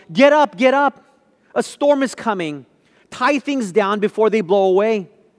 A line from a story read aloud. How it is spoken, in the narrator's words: yelled